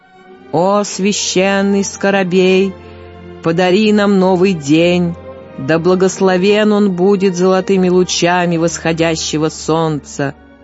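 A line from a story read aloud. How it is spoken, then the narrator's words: Detached, solemn. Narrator (Russian): Отрешенно и торжественно шейх произнес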